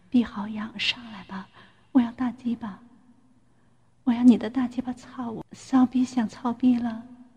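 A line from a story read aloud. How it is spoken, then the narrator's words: Soft voice. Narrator (Chinese): 我轻声对大鹏说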